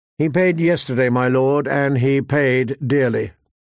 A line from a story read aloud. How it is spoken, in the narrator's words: Ned replied